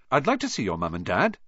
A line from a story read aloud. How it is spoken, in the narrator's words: Ron said eagerly